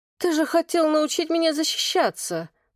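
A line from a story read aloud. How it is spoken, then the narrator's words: Moaned. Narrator (Russian): простонала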